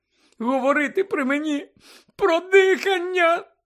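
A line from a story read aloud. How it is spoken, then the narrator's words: Shrill exclamation, echoing. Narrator (Ukrainian): пронизливо вигукнула, і її голос луною відбився по кімнаті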